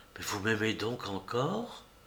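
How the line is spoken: Very quiet voice. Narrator (French): Elle lui dit tout bas

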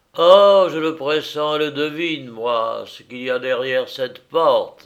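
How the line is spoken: Exclaimed. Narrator (French): s'écria-t-il

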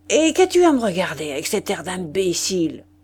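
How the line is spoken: Vicar growling. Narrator (French): grogna le vicaire

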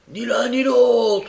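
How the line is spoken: Comrade yelling. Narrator (French): hurla un de ses camarades

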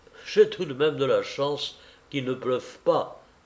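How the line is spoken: Murmured. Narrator (French): murmura-t-il

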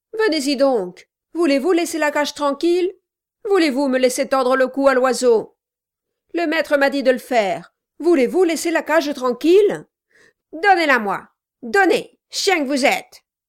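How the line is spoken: Yelling. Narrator (French): hurla Kilp

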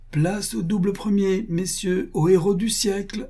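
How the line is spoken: Exclaimed. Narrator (French): s'écria-t-il

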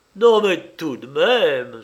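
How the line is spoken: Almost joyful exclamation. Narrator (French): s'écria presque joyeusement

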